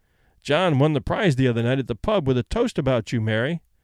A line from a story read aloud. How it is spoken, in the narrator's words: The man chuckled leeringly and said